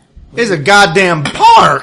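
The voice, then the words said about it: Yelling. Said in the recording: “stop yelling?”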